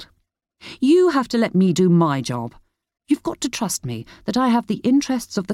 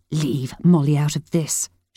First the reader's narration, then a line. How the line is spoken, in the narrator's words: she hissed